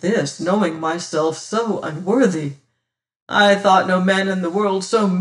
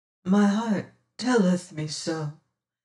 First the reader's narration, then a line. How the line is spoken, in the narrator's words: says she drowsily